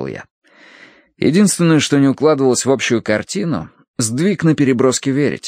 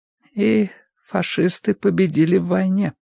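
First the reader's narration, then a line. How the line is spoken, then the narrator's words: Dull, muffled voice. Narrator (Russian): глухо проговорила миссис Битнер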